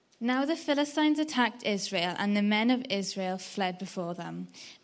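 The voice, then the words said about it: Welsh Swansea accent. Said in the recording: “your lovely Swansea accent”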